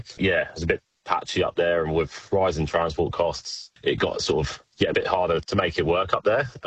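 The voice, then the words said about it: British accent. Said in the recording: “you'd be able to tell from the accent I'm from the UK”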